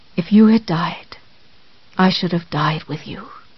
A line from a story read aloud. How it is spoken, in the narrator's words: he whispered